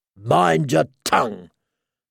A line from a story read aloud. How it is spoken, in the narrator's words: snapped